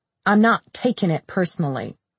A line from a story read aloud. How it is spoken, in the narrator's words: he said irritably